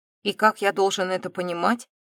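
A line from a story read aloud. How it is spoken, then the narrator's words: Scoffing snort. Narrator (Russian): хмыкнул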